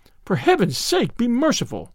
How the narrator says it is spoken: cried the young man

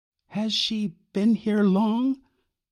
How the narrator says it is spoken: Y asked timidly

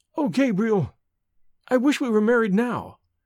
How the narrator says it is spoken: cried Evelyn in sudden distress

